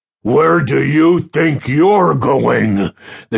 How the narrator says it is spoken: the giant thundered

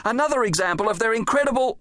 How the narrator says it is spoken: he shouted to Doris

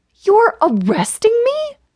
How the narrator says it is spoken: I gasped again

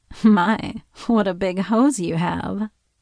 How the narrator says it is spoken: chuckled as I struggled to get up

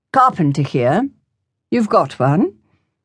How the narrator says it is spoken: in his politest tones he said

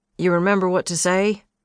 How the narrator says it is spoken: She snorted

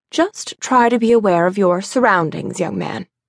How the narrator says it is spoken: he said

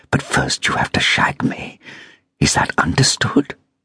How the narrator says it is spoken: hissed

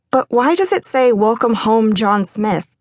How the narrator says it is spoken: chuckled

